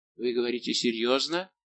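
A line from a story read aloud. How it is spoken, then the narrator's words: Barely audible, shaken. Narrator (Russian): побледнев, спросил еле слышным голосом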